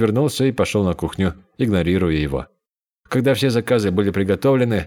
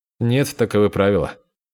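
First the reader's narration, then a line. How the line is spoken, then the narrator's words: Cold. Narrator (Russian): холодно сказал Бу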